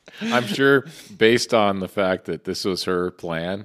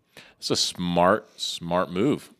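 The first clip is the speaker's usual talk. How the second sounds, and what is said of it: Sarcastic delivery. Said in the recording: “I was being sarcastic.”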